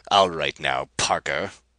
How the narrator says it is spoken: snapped Rapaju

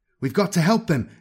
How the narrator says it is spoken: Nathan shouted to Kron

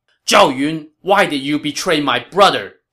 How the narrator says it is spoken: Zhang Fei shouted

